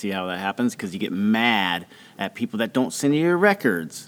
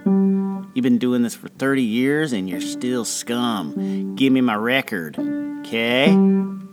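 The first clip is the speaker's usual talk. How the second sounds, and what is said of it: Angry voice drifting into Southern accent. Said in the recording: “It started off not with a southern accent, but then ended.”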